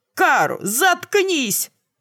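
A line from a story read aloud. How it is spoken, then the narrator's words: Barked. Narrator (Russian): рявкнули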